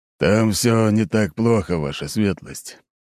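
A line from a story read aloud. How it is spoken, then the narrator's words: Displeased tone. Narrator (Russian): все еще недовольным тоном произнес Аршавин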